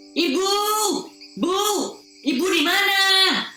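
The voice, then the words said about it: Shouting loudly. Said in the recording (Indonesian): “Kenapa kau harus teriak-teriak begitu?”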